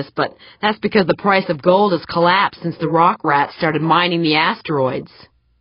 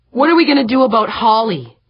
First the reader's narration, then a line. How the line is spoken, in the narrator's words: Cardenas asked, her voice suddenly sharp